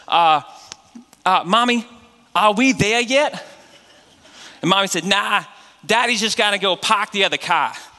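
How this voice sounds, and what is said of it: Exaggerated Northeastern US accent. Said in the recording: “accent differences ... in the Northeast, we don't know what to do with our R's and our A's ... we put our R's where our A's are supposed to be and our A's where our R's are supposed to be”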